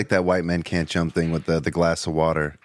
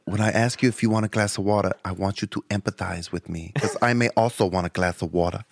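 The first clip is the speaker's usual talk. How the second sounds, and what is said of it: Imitates another person's voice. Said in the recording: “Was that Rosie Perez? ... That was a pretty good Rosie Perez impersonation.”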